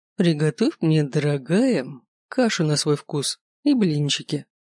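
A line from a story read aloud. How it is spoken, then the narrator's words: Cheerful. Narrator (Russian): весело сказал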